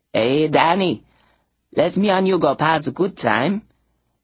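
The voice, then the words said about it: Man's voice, heavy French-Cajun accent. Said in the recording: “a man's voice, heavy with French-Cajun accent”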